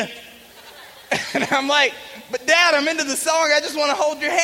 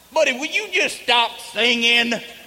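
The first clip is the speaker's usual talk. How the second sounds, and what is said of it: Thick country accent. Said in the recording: “my dad's got a lot thicker country accent than me”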